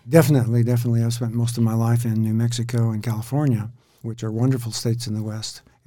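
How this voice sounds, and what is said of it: American accent. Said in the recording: “you are originally from the states. We can hear by your yeah. accent.”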